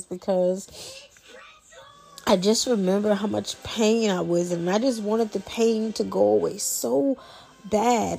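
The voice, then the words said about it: Emotional, tearful voice, crying a little. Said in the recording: “getting emotional ... got to excuse if you hear me crying a little bit, because I'm wiping tears”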